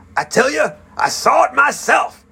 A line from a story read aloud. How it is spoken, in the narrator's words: he shouted angrily